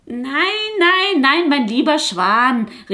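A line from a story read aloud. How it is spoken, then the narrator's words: Goose calling out. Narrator (German): rief die Gans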